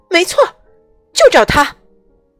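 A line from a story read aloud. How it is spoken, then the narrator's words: Excited shout. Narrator (Chinese): 巫师，快乐先生叫了起来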